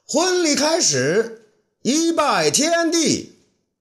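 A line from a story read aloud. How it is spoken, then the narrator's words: Loud ceremonial announcement. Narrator (Chinese): 霍光呢，既是伴郎，那又是司仪，大声叫道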